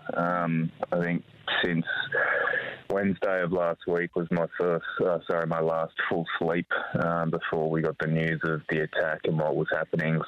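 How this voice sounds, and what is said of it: Tired-sounding voice. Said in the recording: “as you'll probably be able to tell from my voice, pretty tired”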